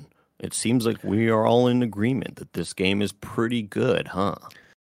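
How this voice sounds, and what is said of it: Mock video game voice acting. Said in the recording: “my impersonation of the voice acting”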